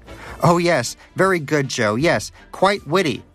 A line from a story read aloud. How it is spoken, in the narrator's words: shouted Danish